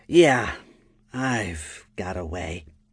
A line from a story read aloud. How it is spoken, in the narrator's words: Lyphra said in a sullen tone